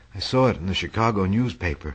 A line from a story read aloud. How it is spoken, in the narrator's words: he said